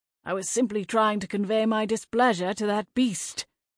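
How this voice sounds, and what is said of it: Posh Oxford English accent. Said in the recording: “leaning into his Oxford accent”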